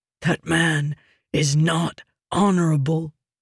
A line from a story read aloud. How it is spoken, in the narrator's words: Nelshenden whispered